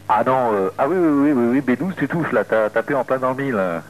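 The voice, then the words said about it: Slight southwestern French accent. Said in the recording (French): “C'est quoi ton accent? ... Tu trouves que j'ai un petit accent? ... C'est du sud-ouest ... un sud-ouest du côté de la Gironde ... Gironde, Bordeaux.”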